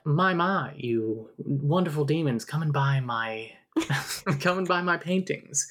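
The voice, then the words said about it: Posh transatlantic accent character voice. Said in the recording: “Mrs. Graff has got the transatlantic accent.”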